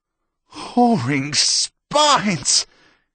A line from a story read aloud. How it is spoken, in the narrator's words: he squealed crazily